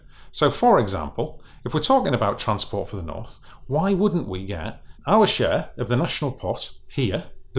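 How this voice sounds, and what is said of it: Northeast English accent. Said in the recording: “I've got a northeastern accent”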